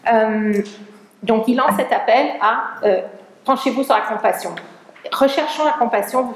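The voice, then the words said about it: Noticeable accent speaking French. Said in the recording (French): “malgré mon accent, je suis francophone”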